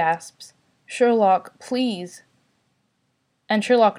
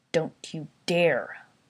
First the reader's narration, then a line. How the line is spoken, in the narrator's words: Sherlock growls